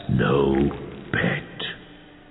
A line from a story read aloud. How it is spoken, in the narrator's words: whispered Lupov